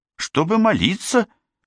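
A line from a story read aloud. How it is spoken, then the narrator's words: Mildly irritated answer. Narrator (Russian): чуть раздраженно ответила Джейн, мол, не задавай глупых вопросов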